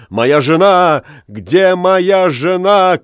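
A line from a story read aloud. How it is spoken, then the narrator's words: Shout. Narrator (Russian): крикнул он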